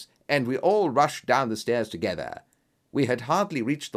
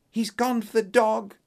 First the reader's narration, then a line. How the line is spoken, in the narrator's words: cried Miss Hunter